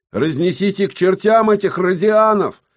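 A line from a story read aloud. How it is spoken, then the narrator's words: Shouted. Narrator (Russian): выкрикнул кто-то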